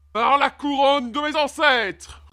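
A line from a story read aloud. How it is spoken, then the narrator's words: Roaring king. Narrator (French): rugit le roi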